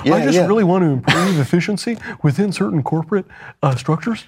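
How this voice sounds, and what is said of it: Imitates another person's voice. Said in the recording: “This is a very good impression.”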